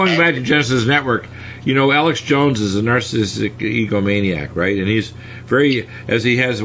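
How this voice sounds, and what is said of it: Usual voice. Nothing is said of it.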